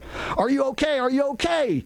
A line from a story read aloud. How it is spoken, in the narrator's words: Picard shouted at the three of us